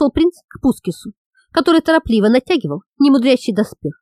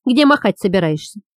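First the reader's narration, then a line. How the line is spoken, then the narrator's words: Plain. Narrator (Russian): спросил Саш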